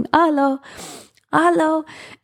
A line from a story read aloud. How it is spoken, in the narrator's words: I start yelling